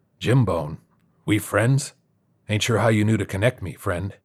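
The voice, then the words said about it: Gravelly character voice. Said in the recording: “in a gravelly voice”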